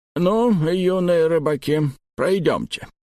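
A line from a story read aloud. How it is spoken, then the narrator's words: Toothless old mumble. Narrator (Russian): прошамкал доктор Экер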